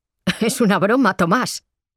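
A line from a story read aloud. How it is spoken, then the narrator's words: Laughing. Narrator (Spanish): Goya se rió y dijo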